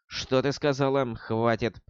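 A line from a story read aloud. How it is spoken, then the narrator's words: Quiet. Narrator (Russian): тихо произнесла Акарис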